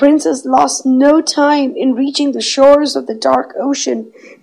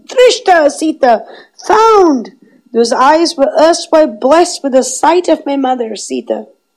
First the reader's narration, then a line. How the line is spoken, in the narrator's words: cried out